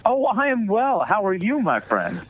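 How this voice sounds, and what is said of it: Put-on cheery voice. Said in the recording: “No need to put on the cheery voice.”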